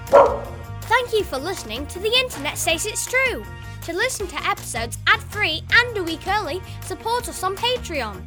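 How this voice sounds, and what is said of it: Child with English-like accent. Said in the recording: “a kid who speaks in an accent similar to English.”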